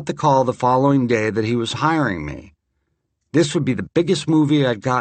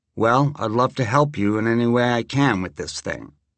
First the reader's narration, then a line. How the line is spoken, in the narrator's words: I said very calmly